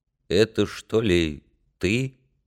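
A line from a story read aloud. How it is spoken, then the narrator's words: Husky, sniffling boy. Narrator (Russian): Мальчишка засопел, сказал сипловато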